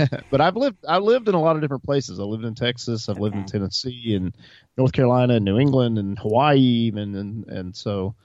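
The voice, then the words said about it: Southern American accent. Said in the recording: “So hence the southern accent.”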